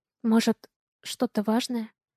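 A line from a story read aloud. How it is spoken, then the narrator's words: Quiet question. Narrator (Russian): Спрашиваю тихо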